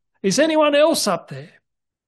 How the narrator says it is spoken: after a little while of silence, he called out

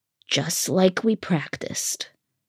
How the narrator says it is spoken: Firion murmured, but it didn't come out as reassuringly as she had hoped, more of a strangled warble

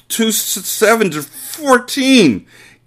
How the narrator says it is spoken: gasped Rupert

